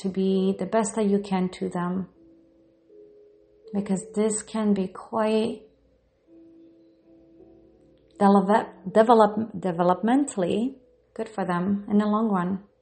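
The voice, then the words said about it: Non-native English accent. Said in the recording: “I am bilingual. So if you hear me saying certain words, words incorrectly or you hear an accent, it's because, yes, English is my second language.”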